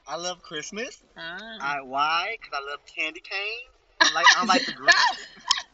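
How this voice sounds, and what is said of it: Noticeable accent, hard to understand. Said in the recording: “you have an accent. ... He has an accent. That's the problem. I couldn't understand.”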